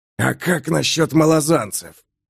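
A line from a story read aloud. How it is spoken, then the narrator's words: Hoarse snarling shout. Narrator (Russian): хрипло крикнул оскаливший зубы Тморол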